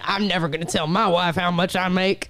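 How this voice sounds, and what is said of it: Mocking imitation of men's voices. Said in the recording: “I don't know why I did that voice”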